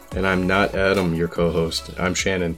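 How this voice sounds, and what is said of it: Deep voice after the flu. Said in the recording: “I just got over the flu, so my voice is amazing right now. It's real nice and deep ... It's got that radio quality to it.”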